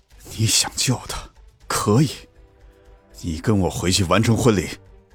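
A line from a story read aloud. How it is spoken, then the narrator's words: Grim, through gritted teeth. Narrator (Chinese): 秦慕年目光沉沉，几乎是咬牙切齿地说道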